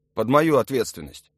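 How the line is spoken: Hurried reply. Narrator (Russian): ответил торопливо Юра

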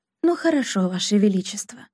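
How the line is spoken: Soft, gentle voice. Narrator (Russian): мягко проговорила она

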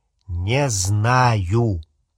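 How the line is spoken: Drawl. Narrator (Russian): протянул Рон

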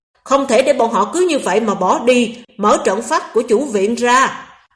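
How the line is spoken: Angry roar. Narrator (Vietnamese): giận dữ rống

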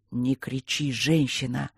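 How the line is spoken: Hoarse. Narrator (Russian): сказал сипло

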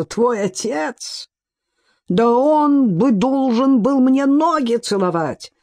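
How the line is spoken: Furious outburst. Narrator (Russian): выкрикнул Фэн с искаженным лицом

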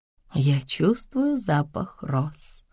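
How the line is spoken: Quiet, mother's voice. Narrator (Russian): тихо сказала мать

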